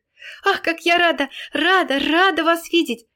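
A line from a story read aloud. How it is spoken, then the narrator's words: Ringing little voice shouting, close. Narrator (Russian): закричал ей в ухо звонкий голосок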